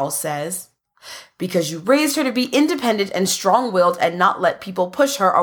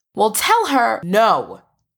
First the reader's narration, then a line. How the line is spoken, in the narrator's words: Charles says firmly